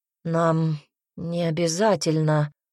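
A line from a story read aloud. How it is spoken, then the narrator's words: Unexpectedly hoarse. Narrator (Russian): голос Саллара прозвучал неожиданно хрипло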